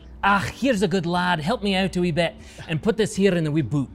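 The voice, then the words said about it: Put-on Scottish accent. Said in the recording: “my grandfather who is Scottish... the accent... When I put this hat on, I sound like my grandfather.”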